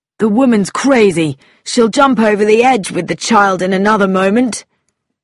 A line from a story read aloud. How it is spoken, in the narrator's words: Tommy cried